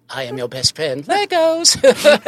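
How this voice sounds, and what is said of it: Cartoon character voice. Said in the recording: “I like doing that voice. I like doing cartoon voices”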